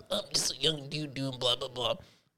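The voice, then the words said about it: Impression that sounds like Bill Cosby. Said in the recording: “Why you sound like Bill Cosby, though, with that impression?”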